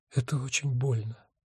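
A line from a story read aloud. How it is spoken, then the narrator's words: Whisper. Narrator (Russian): шепнула она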